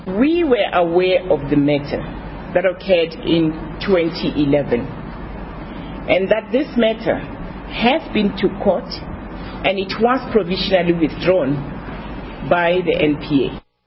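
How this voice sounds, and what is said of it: Heavy South African accent. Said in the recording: “if you didn't understand through that accent ... That South African judge”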